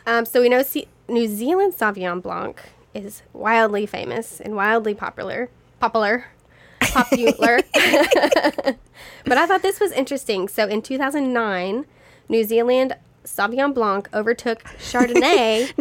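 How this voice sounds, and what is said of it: Kentucky accent. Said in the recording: “Your Kentucky accent coming out.”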